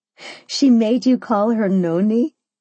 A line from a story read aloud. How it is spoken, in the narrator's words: I laughed